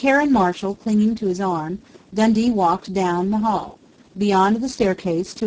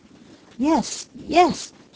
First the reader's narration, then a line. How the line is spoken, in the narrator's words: she gasped